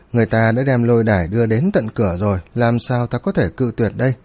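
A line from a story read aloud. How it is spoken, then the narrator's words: Smiling reply. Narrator (Vietnamese): Tiêu Viêm cũng mỉm cười đáp lại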